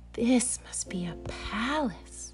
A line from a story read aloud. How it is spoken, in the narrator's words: Corduroy gasped